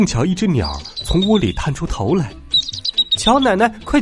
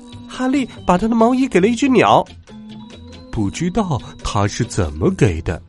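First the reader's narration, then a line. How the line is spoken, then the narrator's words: Children shouting. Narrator (Chinese): 孩子们叫道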